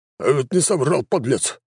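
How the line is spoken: Offended. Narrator (Russian): обиженно проговорил Джон

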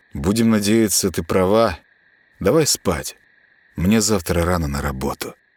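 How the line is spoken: Sighing. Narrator (Russian): вздохнул он

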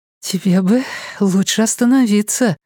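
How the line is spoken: Breathed out. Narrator (Russian): выдохнула она

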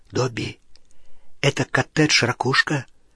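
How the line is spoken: Whispered question. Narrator (Russian): спросил он шепотом

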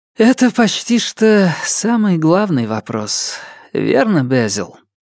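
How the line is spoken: Sighing. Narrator (Russian): вздохнула Нелит

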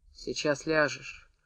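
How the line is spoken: Dull, muffled voice. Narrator (Russian): глухо сказал Демид

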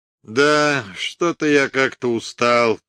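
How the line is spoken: Mumbling. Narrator (Russian): промямлил он

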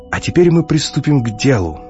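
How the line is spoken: Exclamation. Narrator (Russian): воскликнул Сизрейд

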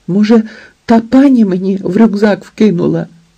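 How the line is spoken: Desperate exclamation. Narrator (Ukrainian): відчайдушно вигукнула Рая

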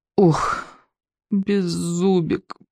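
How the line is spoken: Groaning. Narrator (Russian): простонал Икинг

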